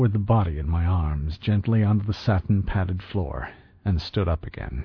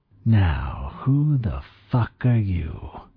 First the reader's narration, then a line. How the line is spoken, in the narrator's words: hissed